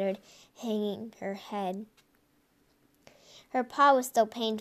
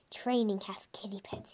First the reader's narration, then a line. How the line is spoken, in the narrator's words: he muttered